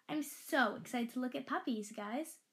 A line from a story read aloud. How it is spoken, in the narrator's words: I said excitedly